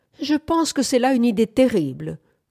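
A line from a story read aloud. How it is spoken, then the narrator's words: Exclaiming. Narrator (French): s'écria Bamford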